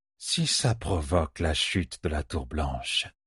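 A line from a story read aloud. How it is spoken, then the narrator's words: Sighed. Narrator (French): soupira Asunawa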